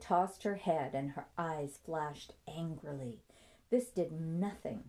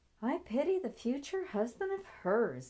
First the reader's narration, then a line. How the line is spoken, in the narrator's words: Nancy thought with a chuckle